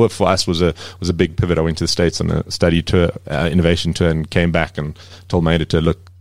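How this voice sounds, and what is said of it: Usual voice. Nothing is said of it.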